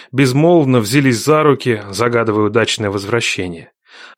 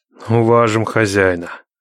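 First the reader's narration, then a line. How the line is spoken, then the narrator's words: Grim, threatening. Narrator (Russian): мрачно молвил Никита, будто пригрозил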